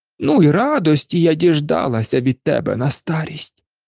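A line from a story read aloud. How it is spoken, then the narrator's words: Aunt's sorrowful sigh. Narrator (Ukrainian): скрушно зітхнула тітка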